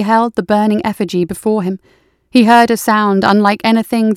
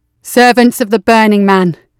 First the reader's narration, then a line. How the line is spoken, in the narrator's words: Brahms called out